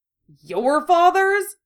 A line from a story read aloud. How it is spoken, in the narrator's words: Harry spat